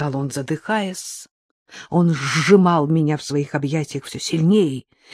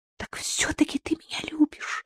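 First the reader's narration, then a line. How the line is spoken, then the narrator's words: Whisper. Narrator (Russian): шепнула я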